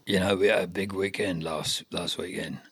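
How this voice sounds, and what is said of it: Impression of an older man. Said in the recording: “I do an impression of him. ... It's not very good, though. ... It's not bad. ... Not the same as his”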